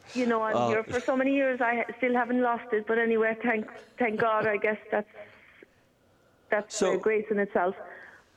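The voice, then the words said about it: Slight Irish lilt. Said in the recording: “There's just that little bit of an Irish lilt going on there.”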